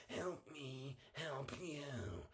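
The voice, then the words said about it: Tom Cruise impression. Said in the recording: “how was my Tom Cruise impression?”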